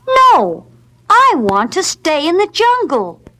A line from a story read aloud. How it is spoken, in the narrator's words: Mowgli cried